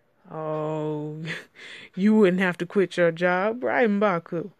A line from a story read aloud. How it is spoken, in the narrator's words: Donnie laughed